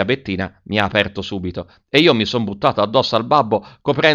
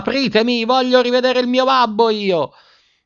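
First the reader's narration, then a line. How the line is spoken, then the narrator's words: Yelling at top of lungs. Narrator (Italian): urlando a squarciagola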